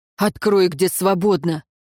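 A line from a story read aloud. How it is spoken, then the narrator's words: Barking. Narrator (Russian): тот только рявкнул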